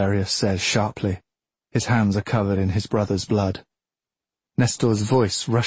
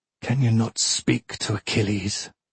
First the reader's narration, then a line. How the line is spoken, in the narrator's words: he says hoarsely